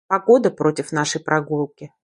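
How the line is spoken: Mumble. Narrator (Russian): пробормотала я

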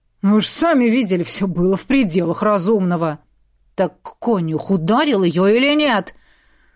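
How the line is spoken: Angry growl. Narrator (Russian): Уже рычал я, не в силах сдержать гнев

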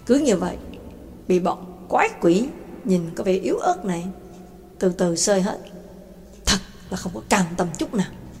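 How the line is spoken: Harsh, gritted voice. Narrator (Vietnamese): Gã gằn giọng nói

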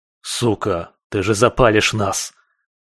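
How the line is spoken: Desperate hiss. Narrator (Russian): Зашипел в отчаянии жаба

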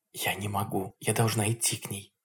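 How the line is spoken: Whisper. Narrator (Russian): шептала Надя

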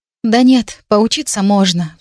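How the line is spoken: Sighing again. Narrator (Russian): вздохнула я опять

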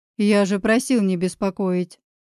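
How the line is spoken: Stern voice. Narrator (Russian): строгим голосом выдает Мирон

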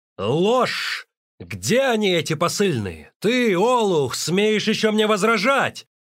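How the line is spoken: Commanding yell. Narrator (Russian): завопил он и приказал

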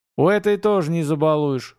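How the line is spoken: Big man's wry snort. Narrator (Russian): хмыкнул здоровяк

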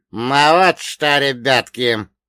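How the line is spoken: Creaky voice. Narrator (Russian): проскрипел Вольга Богданович

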